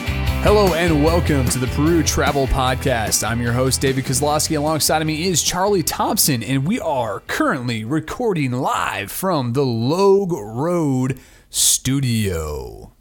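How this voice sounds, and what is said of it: Announcer-style radio voice. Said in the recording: “I did my best radio voice right there”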